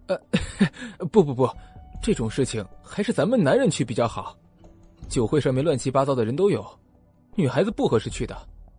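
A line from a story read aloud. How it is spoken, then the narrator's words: Smiling, displeased. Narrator (Chinese): 换思慕不乐意了，他笑盈盈的说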